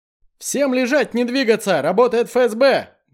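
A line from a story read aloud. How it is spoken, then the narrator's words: Loud shouting. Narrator (Russian): громко кричу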